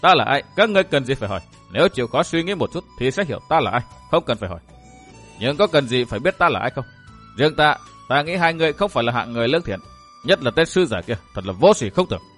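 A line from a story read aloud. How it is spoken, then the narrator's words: Laughing heartily. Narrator (Vietnamese): Độc Cô Thanh Tùng bật cười ha hả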